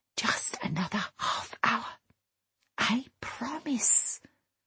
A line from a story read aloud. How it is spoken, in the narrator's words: Cora whispering